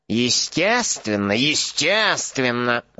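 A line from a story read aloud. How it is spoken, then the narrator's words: Mumbling. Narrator (Russian): забормотал Борджин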